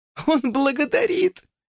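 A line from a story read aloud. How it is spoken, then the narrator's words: Giggling whisper. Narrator (Russian): хихикая прошептала Люси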